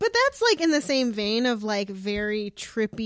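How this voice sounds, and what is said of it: Usual voice. Nothing is said of it.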